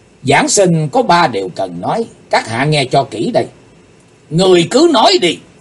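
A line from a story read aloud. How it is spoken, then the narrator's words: Angry shout. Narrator (Vietnamese): Chí Tôn dựng ngược đôi mày, quát tiếng nói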